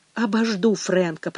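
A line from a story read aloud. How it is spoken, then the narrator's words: Whisper. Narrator (Russian): прошептала Мэгги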